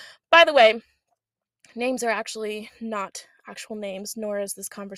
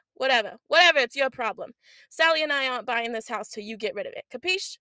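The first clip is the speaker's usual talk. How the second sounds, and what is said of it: Put-on East Coast accent. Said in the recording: “I keep the accent because it's the East Coast, so if you want to say that it was terrible”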